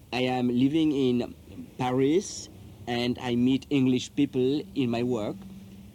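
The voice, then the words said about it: Strong French accent. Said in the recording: “I have a very French accent”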